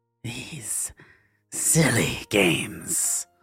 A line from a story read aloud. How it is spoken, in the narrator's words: Cordiva hissed under her breath